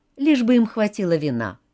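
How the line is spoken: Plain. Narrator (Russian): сказала Крис

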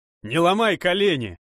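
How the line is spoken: Desperate shout. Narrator (Russian): В отчаянии крикнул майор КСК

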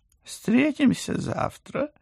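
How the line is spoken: Overly cheerful. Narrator (Russian): как-то слишком уж бодро предложил кот

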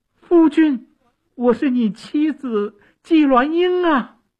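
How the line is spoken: Loud cry. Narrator (Chinese): 纪鸾英大声地叫

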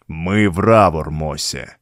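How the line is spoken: Ominous booming drone. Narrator (Russian): зловеще прогудел

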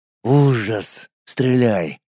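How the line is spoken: Whispered. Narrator (Russian): прошептал Колян

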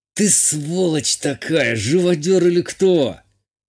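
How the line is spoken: Pained, through gritted teeth. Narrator (Russian): Процедил Игалик, на лбу которого выступил пот, а в ауре всполохи боли

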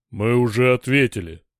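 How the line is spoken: Growled. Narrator (Russian): прорычал Дор

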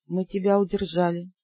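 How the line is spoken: Sad reply. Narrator (Russian): грустно отозвался Ас

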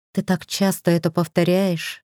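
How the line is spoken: Drained, empty sigh. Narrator (Russian): вздохнула я опустошенно

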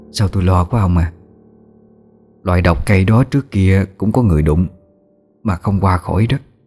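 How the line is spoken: Soft, worried voice. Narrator (Vietnamese): Bà Lữ khẽ nói với chồng

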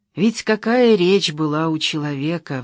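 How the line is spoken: Sighing. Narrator (Russian): вздохнула Татьяна

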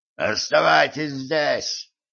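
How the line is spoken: Hoarse wheeze. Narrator (Russian): прохрипел

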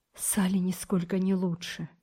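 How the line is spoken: Quiet and anxious. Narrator (Russian): тихо с тревогой сказал

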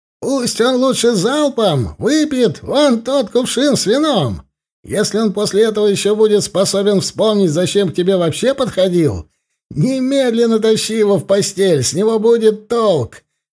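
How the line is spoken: Shouted. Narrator (Russian): крикнул кто-то

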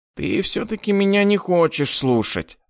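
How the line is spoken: Nasal sighing voice. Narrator (Russian): вздохнул гнусавый

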